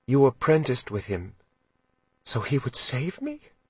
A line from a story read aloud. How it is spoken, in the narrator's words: she asked, her voice barely above a whisper